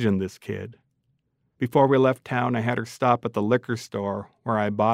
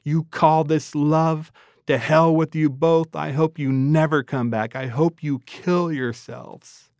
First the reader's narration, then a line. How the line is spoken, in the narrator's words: He screamed